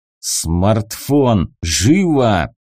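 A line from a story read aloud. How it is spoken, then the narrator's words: Snort then growl. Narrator (Russian): хмыкнул я, прорычал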